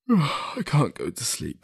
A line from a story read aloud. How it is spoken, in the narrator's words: said through a yawn